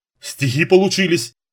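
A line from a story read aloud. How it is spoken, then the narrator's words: Nervous giggle. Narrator (Russian): нервно хихикнул кто-то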